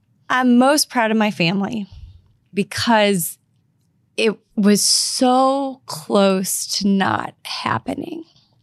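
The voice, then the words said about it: Emotional, choked-up speech. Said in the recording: “I'm getting emotional”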